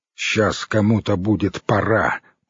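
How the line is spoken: Strained, through teeth. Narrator (Russian): процедил Семга, пытаясь подняться

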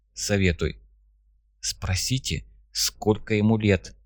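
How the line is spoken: Quiet speech. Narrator (Russian): Так же тихо сказал Дзай

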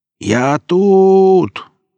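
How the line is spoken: Shouting. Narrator (Russian): крикнул Велес

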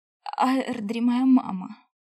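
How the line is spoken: Hoarse wheeze. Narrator (Russian): Просипела я

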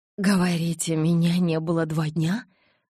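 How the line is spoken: Shocked breathless exhale. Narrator (Russian): потрясенно выдохнула я

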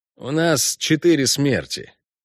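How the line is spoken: Gloomy elf's report. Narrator (Russian): мрачно сообщил эльф

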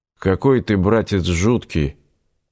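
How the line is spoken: Indistinct mumble. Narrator (Russian): невнятно пробормотал Игорь

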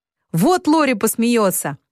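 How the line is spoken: Many voices shouting over each other. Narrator (Russian): кричали все наперебой

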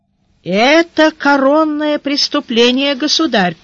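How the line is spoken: Sorrowful. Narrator (Russian): печально сказал министр полиции

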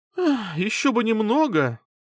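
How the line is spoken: Sighing. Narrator (Russian): Лин вздохнул

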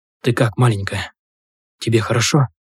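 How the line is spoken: Whisper. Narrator (Russian): прошептал

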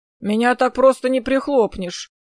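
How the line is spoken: Prickly grumble. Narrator (Russian): ершисто проворчал Сет

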